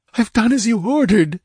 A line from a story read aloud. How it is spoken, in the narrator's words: she gasped hysterically